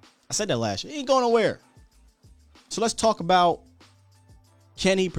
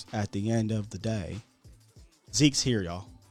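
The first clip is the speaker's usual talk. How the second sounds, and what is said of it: Stephen Jones impression. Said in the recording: “in my Stephen Jones voice”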